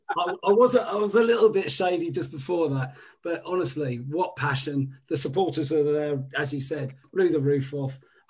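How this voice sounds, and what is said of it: Hoarse, strained voice. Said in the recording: “I've lost my voice as a result of it.”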